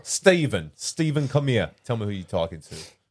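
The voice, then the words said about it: Put-on New York accent. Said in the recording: “trying to do a New York accent”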